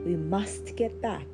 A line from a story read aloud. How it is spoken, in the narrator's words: said Mollie with a sigh